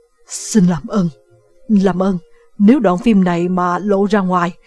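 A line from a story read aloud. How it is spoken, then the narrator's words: Panicked stammering. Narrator (Vietnamese): Solomon hoảng loạn, ông lắp bắp nói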